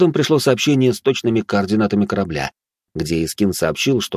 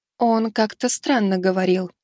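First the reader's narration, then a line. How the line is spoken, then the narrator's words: Thoughtful remark. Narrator (Russian): задумчиво заметила подруга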